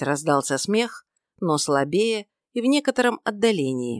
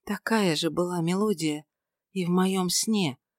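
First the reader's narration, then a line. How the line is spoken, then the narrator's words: Whisper. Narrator (Russian): прошептала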